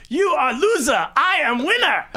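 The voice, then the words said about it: Imitated broken English. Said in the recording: “in like real broken English”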